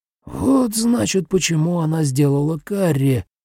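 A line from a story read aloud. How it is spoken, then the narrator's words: Agitated mutter. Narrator (Russian): взволнованно пробормотал Нобуо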